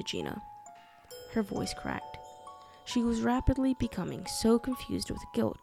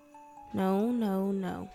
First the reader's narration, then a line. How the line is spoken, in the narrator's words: said Lou wearily